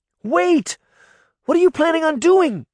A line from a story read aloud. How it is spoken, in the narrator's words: Sabrina shouted